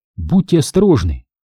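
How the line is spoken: Whisper. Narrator (Russian): ее шепота

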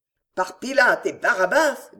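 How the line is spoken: Grumbling. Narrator (French): grommela le chevalier

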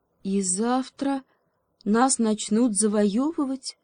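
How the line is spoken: Glum queen. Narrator (Russian): уныло догадалась королева

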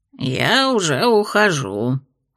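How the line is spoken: Displeased grumbling gnome. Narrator (Russian): недовольно ворчал гном

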